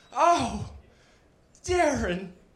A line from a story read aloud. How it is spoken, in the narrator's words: she moaned